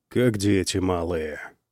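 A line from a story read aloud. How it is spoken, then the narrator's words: Muttering to himself. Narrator (Russian): пробурчал он сам себе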